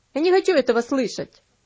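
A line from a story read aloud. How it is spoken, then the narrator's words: Boy grumbling. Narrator (Russian): пробурчал мальчик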